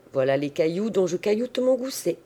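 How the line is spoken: Cold reply. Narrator (French): Géant répondit froidement

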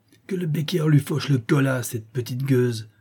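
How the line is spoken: Furious exclamation. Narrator (French): s'écria la Chouette en fureur

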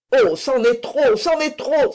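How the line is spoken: Exclaimed. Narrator (French): s'écria Fouquet

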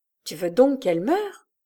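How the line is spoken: Low hissing voice. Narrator (French): demanda Solivo d'une voix basse et sifflante

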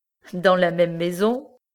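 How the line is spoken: Laughing question. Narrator (French): demanda Prudence en riant

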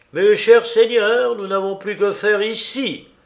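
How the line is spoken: Exclaimed. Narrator (French): s'écria Blanchiforte

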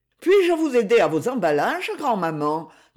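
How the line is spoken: Friendly question. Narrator (French): demanda Myriel d'un ton amical

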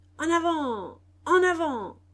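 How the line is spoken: Chiefs shouting. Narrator (French): criaient les chefs

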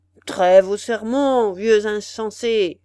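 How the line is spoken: Thundering, irritated shout. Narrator (French): cria l'hôte d'une voix tonnante et presque irritée

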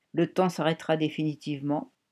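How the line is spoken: Calm. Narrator (French): a calmement répondu le réparateur

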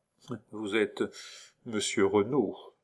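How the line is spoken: Disdainful murmur, duchess. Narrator (French): murmura la duchesse, non sans une nuance de dédain

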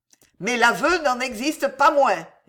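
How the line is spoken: Sneering. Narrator (French): ricana Catherine

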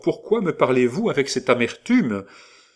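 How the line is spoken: Exclamation. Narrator (French): s'écria Hector

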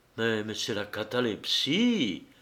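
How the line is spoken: Faint murmur. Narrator (French): murmura Arkad, qui se sentait défaillir

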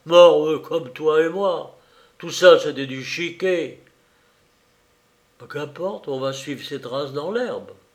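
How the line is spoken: Piteous moaning. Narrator (French): gémit Béchou piteusement

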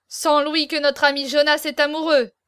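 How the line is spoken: Exclaimed. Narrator (French): s'écria Navailles

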